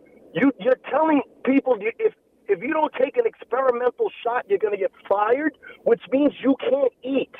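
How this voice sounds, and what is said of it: Raised, loud passionate voice. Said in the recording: “I'm raising my voice”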